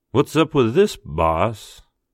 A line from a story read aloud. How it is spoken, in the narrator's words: Mitch drawled